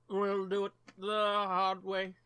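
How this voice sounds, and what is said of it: Poor imitation of another person's voice. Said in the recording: “my terrible fucking Rickman impression. ... it's more based on Snape”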